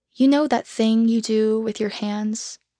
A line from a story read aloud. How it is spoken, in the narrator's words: she asked me